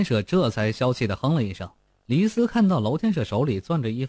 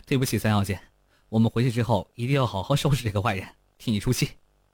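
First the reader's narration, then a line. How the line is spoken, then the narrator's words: Laughing. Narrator (Chinese): 黎斯笑道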